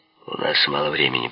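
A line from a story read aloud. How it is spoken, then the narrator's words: Creaky voice. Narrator (Russian): проскрипел Пеппи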